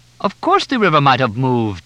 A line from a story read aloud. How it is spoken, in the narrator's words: Juma laughed